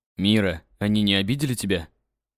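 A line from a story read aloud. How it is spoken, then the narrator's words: Soft, suppressing anger. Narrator (Russian): Мягко спросил я, стараясь справиться с нахлынувшим гневом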